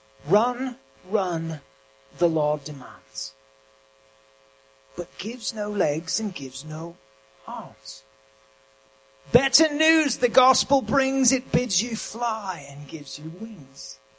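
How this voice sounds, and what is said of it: Put-on English accent. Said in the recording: “You have to say it in an English accent or it doesn't rhyme. It only sort of rhymes even in an English accent”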